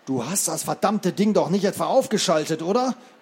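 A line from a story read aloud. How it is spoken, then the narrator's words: Groaning. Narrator (German): stöhnte Jackson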